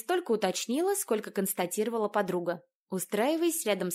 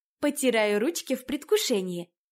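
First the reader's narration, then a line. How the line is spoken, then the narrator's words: Cheerful, smiling. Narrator (Russian): весело улыбнулась она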